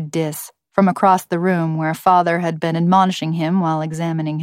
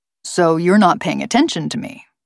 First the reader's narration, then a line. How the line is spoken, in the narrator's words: said Father